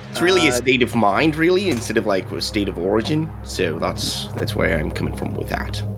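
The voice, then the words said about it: Wavering pseudo accent, vaguely Australian. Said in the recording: “it's a pseudo accent ... I think you floated from Australia ... Your accent is floating too”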